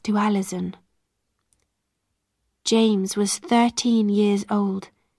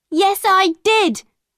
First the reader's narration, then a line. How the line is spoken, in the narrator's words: Alison cried